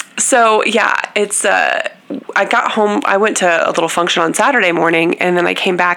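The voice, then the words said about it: Congested, stuffy sinus-infection voice. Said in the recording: “both had sinus infections, so if you can tell, my voice is, it's a little Amazing Amy”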